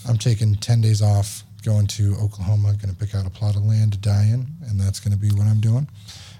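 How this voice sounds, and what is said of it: Raspy voice. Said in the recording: “you can always listen to my perfect voice when I'm not raspy.”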